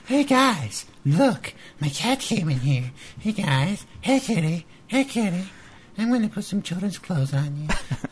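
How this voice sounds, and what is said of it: Bad Cartman-like impression. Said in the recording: “maybe the worst impression ever ... a really good impression of Beeb ... It's like a bastardized Cartman impression ... It's totally Cartman.”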